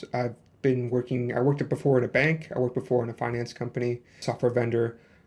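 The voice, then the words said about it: Slight Chicago South Side accent. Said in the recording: “Originally, I'm from USA, from the Chicago South Side, so you might hear a little bit of my accent.”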